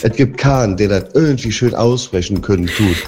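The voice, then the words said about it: Regional German dialect accent. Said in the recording (German): “Und dann auf einmal geht's Hochdeutsch hinten raus.”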